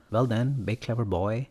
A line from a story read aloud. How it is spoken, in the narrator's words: says gently